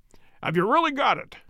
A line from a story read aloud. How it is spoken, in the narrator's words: he cried